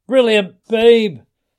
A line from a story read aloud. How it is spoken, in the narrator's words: There was a roar